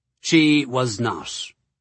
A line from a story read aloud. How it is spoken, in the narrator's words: I replied stiffly